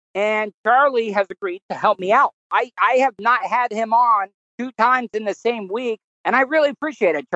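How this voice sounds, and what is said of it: Strained, failing voice. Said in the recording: “My voice is going.”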